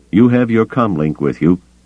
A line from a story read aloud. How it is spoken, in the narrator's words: he cut her off sharply